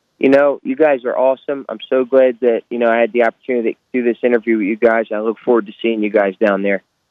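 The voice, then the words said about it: Philadelphia accent. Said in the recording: “I love your accent. ... a fellow Philadelphian. And you can hear that Philly sauce. ... I can hear it in your voice.”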